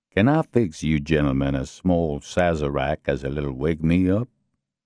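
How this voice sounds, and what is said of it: Deep, thick southern accent. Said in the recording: “in a very deep, very southern voice ... in an even thicker southern accent.”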